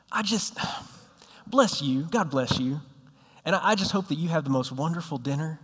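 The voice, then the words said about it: Put-on southern accent. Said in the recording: “I'm going to take on a southern accent here”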